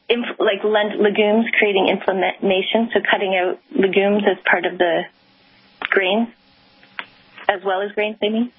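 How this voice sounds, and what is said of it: Fast speech with a foreign accent. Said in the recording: “the speed of your voice with your accent makes it very difficult for me”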